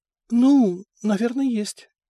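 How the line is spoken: Uncertain. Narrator (Russian): неуверенно ответила она

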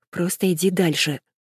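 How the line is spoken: Muttered. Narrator (Russian): бормочу

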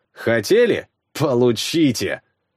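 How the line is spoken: Hissed through teeth. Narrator (Russian): Прошипел я сквозь зубы

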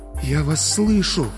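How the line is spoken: Failed whisper. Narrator (Russian): хотела шепнуть Серафима Павловна и не смогла

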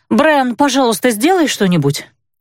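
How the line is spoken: Exclaiming. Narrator (Russian): воскликнула я

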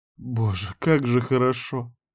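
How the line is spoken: Sighing. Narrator (Russian): вздохнула Карин

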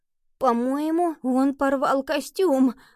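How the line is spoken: Exclaimed. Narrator (Russian): воскликнул Генри

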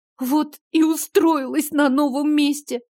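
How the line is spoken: Sobbing. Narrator (Russian): всхлипнула

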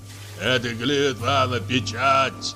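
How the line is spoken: Hoarse bass voice. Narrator (Russian): послышался хриплый бас

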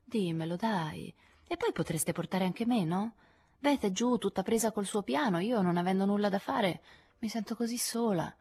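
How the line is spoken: Coaxing tone. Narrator (Italian): le disse in tono carezzevole

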